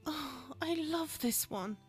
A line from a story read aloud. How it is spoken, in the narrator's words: she sighed